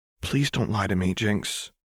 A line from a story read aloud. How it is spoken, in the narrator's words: Lux said quietly